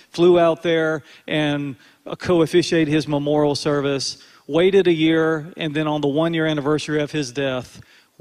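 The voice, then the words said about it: North Carolina accent. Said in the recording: “I flew out to North Carolina, where I'm from. You might can tell by my accent.”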